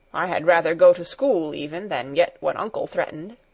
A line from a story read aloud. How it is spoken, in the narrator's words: said in a somewhat sullen voice